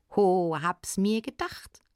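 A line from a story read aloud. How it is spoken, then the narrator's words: Little one laughing. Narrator (German): lachte der Kleine entgegen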